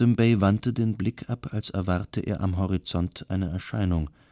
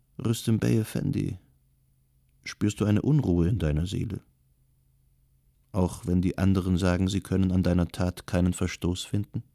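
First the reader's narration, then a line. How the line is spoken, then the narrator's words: Compassionate question. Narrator (German): fragte voller Mitgefühl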